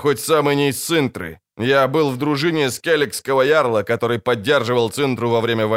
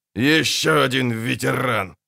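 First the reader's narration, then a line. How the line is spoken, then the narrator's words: Grumbled. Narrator (Russian): буркнул Шелдон Скак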